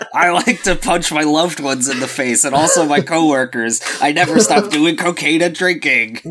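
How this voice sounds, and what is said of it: Imitates another person's voice. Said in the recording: “That's my Johnny Depp impersonation.”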